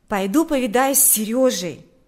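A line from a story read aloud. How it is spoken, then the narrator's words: Exclaimed. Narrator (Russian): воскликнул Миша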